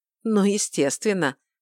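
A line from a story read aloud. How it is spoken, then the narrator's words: Snorting. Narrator (Russian): фыркнул Шамит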